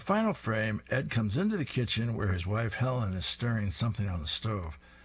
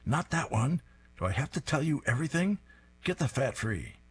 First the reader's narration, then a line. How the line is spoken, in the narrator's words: The man's wife demands sharply